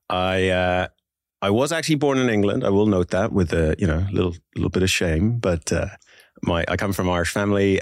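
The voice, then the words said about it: Irish accent. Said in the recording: “I denote an Irish accent there.”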